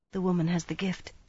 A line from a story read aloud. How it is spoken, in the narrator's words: she whispered